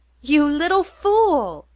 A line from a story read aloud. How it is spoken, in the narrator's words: cried Lou, loudly and affectionately